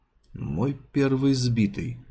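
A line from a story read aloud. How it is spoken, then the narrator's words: Mumbling. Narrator (Russian): пробормотал Уэс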